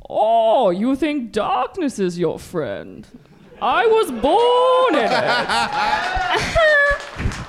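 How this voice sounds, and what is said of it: Imitates Bane character voice. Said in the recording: “That's your go-to impression, Bane.”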